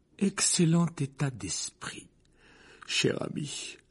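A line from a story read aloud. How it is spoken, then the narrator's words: Sleepy reflection's voice. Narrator (French): répondit son reflet dans le miroir d'une voix endormie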